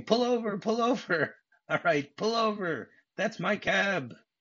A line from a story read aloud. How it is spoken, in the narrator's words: he starts screaming